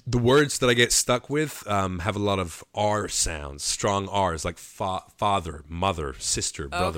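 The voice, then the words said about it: British speaker doing clean American accent. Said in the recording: “can you do a real clean American accent?... I'm going to start talking in my American accent... So weird... it sounds okay”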